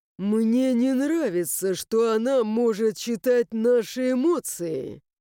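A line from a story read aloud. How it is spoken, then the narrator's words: Curt, categorical through teeth. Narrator (Russian): Категорично процедил Сагай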